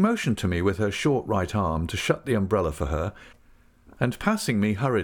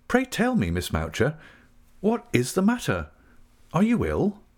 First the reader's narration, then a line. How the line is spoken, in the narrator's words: Quite alarmed at being the only recipient of this untimely visit, and the only spectator of this portentous behaviour, I exclaimed again